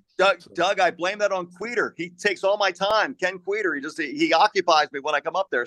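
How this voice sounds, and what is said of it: Slight Southwest Philadelphia accent. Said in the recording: “still maintains a little bit of that Southwest Philly accent.”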